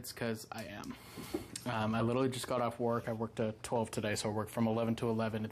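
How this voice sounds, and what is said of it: Tired-sounding voice. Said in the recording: “If I sound tired”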